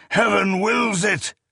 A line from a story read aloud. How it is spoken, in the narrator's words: Wainhale, Anferig, Werigin Greatheart, and then old Gothyelk himself bellowing